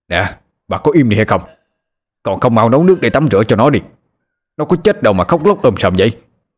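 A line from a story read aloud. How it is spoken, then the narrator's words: Angry yell. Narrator (Vietnamese): ông Mạnh phải quát lên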